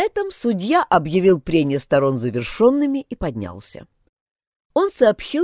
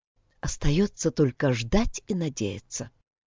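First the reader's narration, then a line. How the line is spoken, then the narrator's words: Quiet. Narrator (Russian): тихо проговорила она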